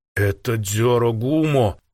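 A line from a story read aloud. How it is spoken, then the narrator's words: Frightened hiss. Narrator (Russian): прошипел испуганно башкир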